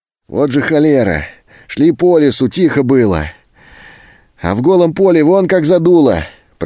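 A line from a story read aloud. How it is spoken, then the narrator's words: Shouting over the wind. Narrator (Russian): прокричал сквозь ветер Антон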